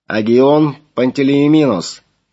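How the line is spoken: Booming over loudspeakers. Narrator (Russian): прогремел из динамиков

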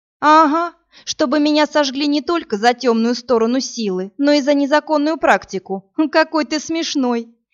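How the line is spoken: Hysterical laughter. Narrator (Russian): Иви истерически расхохоталась

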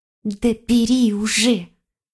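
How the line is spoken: Angry hiss, fox. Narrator (Russian): сердито прошипела лиса

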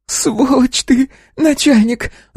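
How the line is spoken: Shouting. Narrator (Russian): закричала

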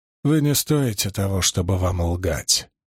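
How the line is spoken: Cold, through teeth. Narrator (Russian): холодно процедил Доусон

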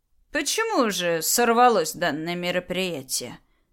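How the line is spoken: Calm question. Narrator (Russian): спокойно спросила Агния

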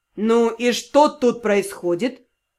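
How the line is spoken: Muffled bark. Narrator (Russian): Глухо рявкнул начальник магического департамента

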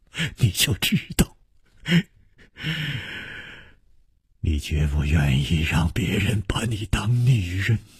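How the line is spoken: Laughing speech. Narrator (Chinese): 楚留香笑着说

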